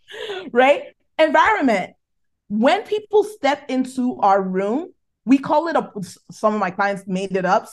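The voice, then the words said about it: Nigerian accent. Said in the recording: “my Nigerian accent”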